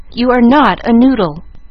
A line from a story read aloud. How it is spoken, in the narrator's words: cried Mama, resenting the epithet